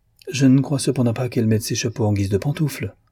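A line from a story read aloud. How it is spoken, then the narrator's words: Acerbic. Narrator (French): fit-il d'un ton acerbe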